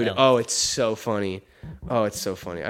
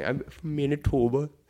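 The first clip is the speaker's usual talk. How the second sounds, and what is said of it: Mock Canadian accent, elf-like voice. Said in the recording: “You talk like a little elf ... I love how Canadian people talk like a little elf ... making fun of, like how Canadian people talk”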